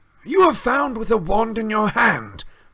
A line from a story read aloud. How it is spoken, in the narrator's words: barked Mr